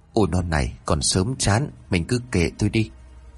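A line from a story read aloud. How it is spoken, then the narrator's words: Soft laugh, then speaking. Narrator (Vietnamese): Bà già dục thì ông khẽ cười rồi nói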